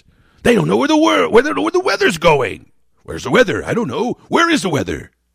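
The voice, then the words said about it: George Carlin impression. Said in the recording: “I didn't even know that I did George Carlin until just now ... the 1,742nd impersonation voice I do now”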